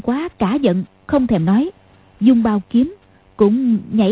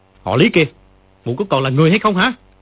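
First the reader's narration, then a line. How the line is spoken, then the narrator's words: Furious shout. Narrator (Vietnamese): Dương Quá giận không để đâu cho hết, quát lên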